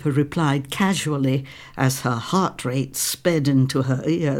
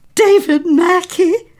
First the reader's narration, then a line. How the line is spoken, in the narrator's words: Jenny announced triumphantly